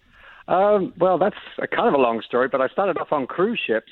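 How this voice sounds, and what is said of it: Speaks with a noticeable accent. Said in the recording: “Because of your accent,”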